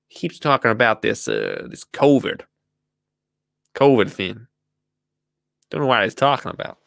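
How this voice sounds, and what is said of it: Put-on American accent. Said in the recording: “That's my American accent.”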